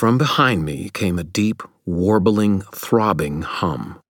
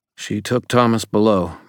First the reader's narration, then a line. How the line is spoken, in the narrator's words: Murphy said, her voice tense